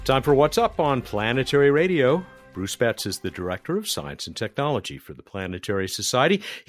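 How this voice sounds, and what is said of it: Sing-songy old-timey radio announcer voice. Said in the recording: “I do that sing-songy, old-timey radio voice when I start these segments”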